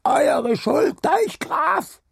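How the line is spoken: Shout from crowd. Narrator (German): schrie eine Stimme aus dem Haufen

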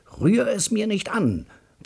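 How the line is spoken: Roaring. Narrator (German): brüllt mein Bruder

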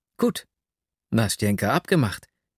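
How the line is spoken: Delighted exclamation. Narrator (German): rief ich entzückt

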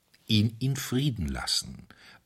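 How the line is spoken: Calm priest answering. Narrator (German): antwortete ruhig der Priester

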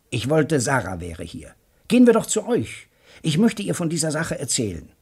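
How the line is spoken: Calling out. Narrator (German): rief Joe Welling

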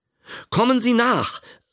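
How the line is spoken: Calling out. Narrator (German): rief er

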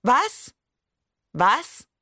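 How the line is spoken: Teacher calling out. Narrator (German): rief die Lehrerin

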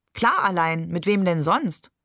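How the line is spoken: Laughing question. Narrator (German): fragte Barbe und lachte

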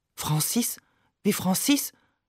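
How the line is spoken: Murmuring. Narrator (German): murmelt sie

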